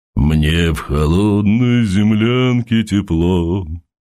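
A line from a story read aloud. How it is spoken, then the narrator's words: Deep bass singing. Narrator (Russian): затянул Константин глубоким басом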